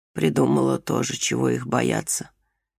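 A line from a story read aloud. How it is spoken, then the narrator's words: Grumbling, calming down. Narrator (Russian): проворчала, успокаиваясь мать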